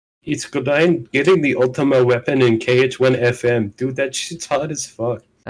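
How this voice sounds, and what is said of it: Imitates another person's voice, poorly. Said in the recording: “That's the worst, possibly the worst voice impression I've ever had.”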